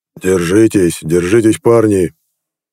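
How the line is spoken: Hoarse bark. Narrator (Russian): хрипло рявкнул Геор

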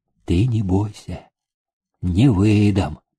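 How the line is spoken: Quiet remark. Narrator (Russian): тихо обронила

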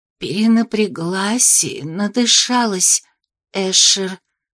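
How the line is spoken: Weak trembling near-whisper. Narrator (Russian): почти прошептала я слабым дрожащим голосом

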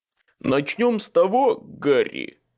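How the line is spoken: Plain. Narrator (Russian): сказал Боб

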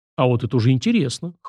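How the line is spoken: Amused snort. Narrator (Russian): хмыкнул парень

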